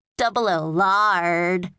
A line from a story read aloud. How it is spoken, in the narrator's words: jeered Jordan